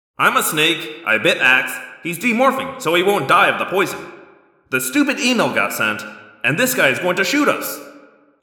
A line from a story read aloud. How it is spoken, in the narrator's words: I said